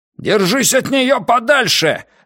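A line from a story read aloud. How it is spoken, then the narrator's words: Harsh bark. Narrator (Russian): рявкнул Ван Эк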